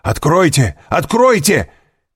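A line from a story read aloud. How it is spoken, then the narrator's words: Shouting. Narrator (Russian): крикнул Вильфор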